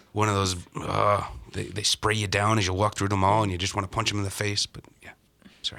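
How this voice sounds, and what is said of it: Angry East Coast Irish-American accent. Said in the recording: “What was this accent you were doing? ... angry. ... Angry goes East Coast, ... Irish-American or something.”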